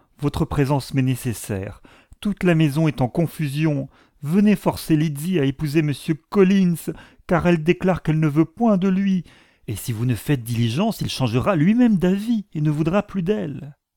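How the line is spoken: Cried out. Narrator (French): s'écria-t-elle

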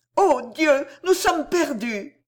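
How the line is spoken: Muffled exclamation. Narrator (French): s'écria-t-elle d'une voix étouffée

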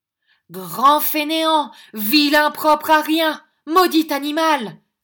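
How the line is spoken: Angry woman shouting. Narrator (French): criait la dame en frappant du pied

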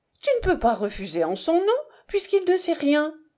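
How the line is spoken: Exclaiming. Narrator (French): s'écria Césarine

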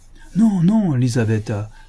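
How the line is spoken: Exclaiming. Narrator (French): s'écria le Sidelets

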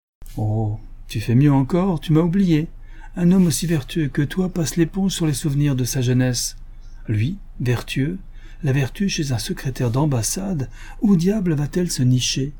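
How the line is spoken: Many voices exclaiming. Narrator (French): s'écria-t-on de toutes parts

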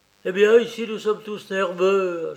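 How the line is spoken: Finishing with heavy sigh. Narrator (French): acheva-t-il, avec un gros soupir

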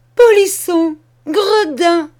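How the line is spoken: Exclaiming. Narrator (French): s'écria-t-elle

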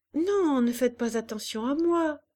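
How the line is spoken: Cheerful. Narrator (French): répondait Hélène gaiement

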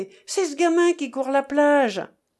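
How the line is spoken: Exclaiming. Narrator (French): s'écria l'un des 3 gentlemen

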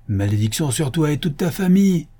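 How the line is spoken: Exclaiming. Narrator (French): s'écria-t-il

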